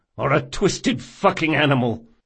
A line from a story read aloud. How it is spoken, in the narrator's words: spat Locke